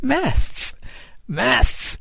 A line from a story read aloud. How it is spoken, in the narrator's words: Kid cried, and he too burst out laughing